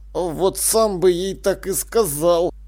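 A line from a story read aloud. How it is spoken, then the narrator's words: Sullen grumble. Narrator (Russian): угрюмо буркнул жрец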